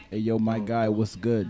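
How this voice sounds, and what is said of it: Put-on New York accent. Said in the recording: “in New York, I gotta do my accent.”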